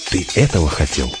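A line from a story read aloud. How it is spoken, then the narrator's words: Whispered. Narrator (Russian): прошептал он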